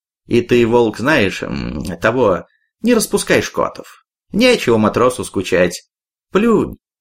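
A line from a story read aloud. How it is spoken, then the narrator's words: Almost gentle. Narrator (Russian): Почти ласково промолвил Петр Петрович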